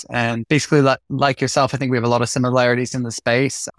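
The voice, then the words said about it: American accent. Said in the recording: “personal trainer here in the UK currently, originally from America, if you can't tell from the accents.”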